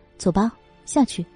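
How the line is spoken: Low voice. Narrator (Chinese): 低声说道

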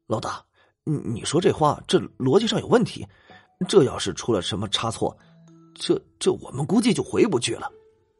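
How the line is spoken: Muttering. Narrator (Chinese): 胖子咕哝道

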